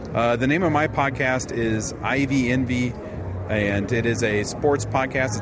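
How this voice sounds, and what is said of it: Chicago accent with distinctive vowels. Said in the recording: “I have kind of a Chicago accent... we do something specific with our vowels”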